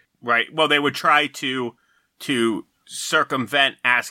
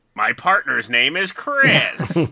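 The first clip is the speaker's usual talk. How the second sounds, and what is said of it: Impression of SNL's Pat. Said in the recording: “Pretty good Pat impression”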